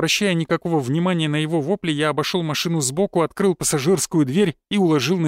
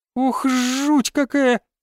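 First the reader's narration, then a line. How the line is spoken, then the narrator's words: Squeak. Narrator (Russian): пропищала она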